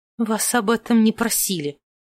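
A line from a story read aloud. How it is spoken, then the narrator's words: Hissed. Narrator (Russian): прошипела леди Друзила из-за спины герцога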